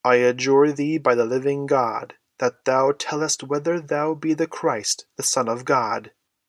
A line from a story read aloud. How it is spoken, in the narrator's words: he cried in a terrible voice